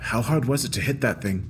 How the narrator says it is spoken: asked softly

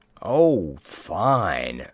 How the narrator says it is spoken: snarled Ciaran

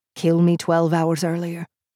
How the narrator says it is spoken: He said dryly

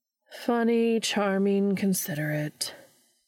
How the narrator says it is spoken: Meg repeated flatly

